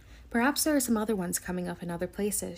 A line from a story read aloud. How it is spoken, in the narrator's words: she said